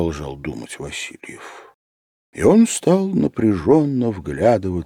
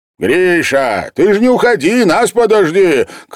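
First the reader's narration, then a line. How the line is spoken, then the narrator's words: Shouted. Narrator (Russian): крикнул ему художник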